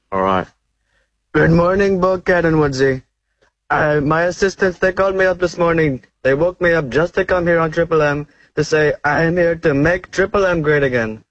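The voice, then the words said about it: Politician impression with Indian accent. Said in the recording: “Is that an Indian Trump? ... It's an Indian Trump. ... Oh, that's fantastic. ... That is so good”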